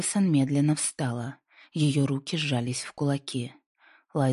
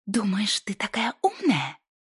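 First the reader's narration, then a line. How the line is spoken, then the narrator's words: Hissing. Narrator (Russian): прошипела Мэдисон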